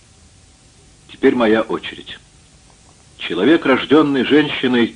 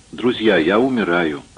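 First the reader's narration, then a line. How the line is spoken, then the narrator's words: Quick, in local dialect. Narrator (Russian): быстро сказал Орт на местном наречии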